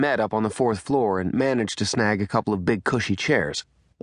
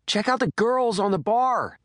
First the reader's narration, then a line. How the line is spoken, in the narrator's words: Taylor shouted